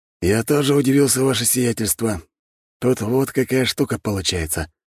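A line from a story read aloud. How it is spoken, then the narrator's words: Sigh. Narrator (Russian): вздохнул виконт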